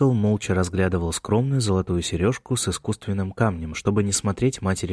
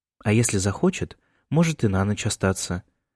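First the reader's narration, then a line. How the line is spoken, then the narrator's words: Calm suggestion. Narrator (Russian): спокойно предложила Эмма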